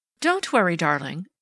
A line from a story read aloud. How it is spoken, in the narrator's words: begged the dark, neurotic-looking woman who was Flora Miles, his wife